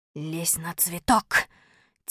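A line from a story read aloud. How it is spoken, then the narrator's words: Soft whisper. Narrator (Russian): тихо шепнул я Малинину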